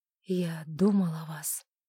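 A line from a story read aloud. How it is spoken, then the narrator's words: Quiet. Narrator (Russian): он тихо сказал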